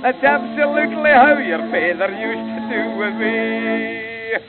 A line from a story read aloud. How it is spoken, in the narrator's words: my mother, how she laughed, and then said she